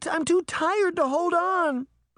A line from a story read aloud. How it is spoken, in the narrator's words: Sabrina cried